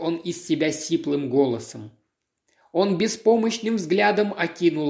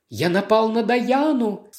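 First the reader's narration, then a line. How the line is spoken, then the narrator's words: Unnaturally even voice. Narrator (Russian): спросил он неестественно ровным голосом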